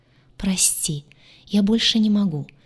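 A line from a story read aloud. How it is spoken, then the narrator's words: Whisper. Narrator (Russian): прошептал он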